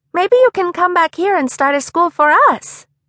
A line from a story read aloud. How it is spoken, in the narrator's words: Esther said eagerly